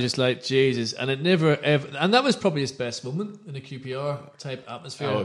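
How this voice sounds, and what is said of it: Usual voice. Nothing is said of it.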